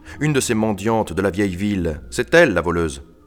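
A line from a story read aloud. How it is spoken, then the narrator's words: Count growling. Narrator (French): gronda le comte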